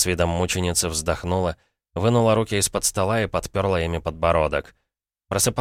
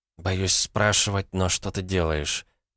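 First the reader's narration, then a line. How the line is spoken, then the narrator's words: Whispered. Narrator (Russian): прошептала Элли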